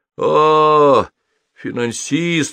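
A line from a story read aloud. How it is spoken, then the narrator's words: Disappointed crowd drawl. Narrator (Russian): разочарованно протянула толпа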